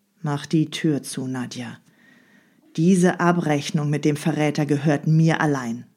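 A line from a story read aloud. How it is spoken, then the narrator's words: Very calm. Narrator (German): sprach ganz ruhig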